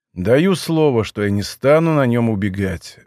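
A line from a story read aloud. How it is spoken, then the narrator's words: Sighing. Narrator (Russian): вздохнул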